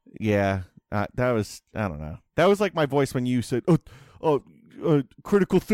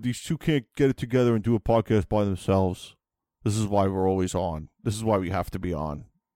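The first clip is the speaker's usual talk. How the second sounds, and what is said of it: Imitates another person's voice. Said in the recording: “Who was that an impression of? ... That doesn't sound like either Chris or Tom.”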